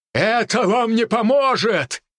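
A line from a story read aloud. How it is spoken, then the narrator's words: Furious demon roar. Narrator (Russian): Демон яростно взревел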